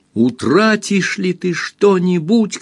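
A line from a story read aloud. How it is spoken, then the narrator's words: Shouting blind man. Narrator (Russian): кричал слепой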